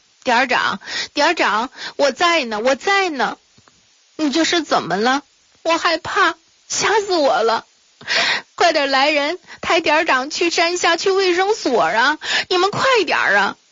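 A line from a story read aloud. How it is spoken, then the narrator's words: Crying, tearful. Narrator (Chinese): 秦梅一边哭着流着泪水 说道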